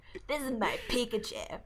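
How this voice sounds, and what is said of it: Cartoon character Ash Ketchum voice. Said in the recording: “talk like Ash... my Ash impression”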